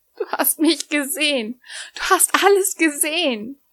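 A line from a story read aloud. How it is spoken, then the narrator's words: Whimpering. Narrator (German): wimmerte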